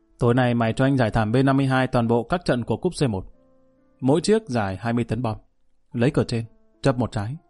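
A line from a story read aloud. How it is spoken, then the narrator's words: Raised voice. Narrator (Vietnamese): Anh ta cao giọng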